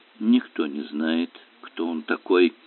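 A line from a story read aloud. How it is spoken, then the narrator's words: Irritated grumble. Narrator (Russian): проворчал доктор Керк с раздраженным видом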